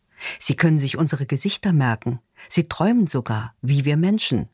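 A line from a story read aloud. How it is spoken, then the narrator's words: Plain. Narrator (German): sagt Rita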